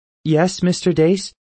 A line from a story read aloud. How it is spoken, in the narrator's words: she asked, her voice suddenly nervous, unsure